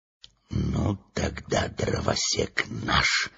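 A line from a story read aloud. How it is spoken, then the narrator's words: Whisper. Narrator (Russian): прошептал Урфин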